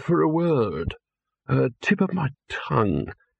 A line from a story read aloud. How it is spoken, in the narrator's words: it said in a dreamy, stunned voice